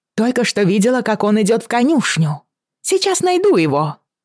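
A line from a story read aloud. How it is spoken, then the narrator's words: Shouted over loud noise. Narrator (Russian): крикнула, перекрывая рев мулов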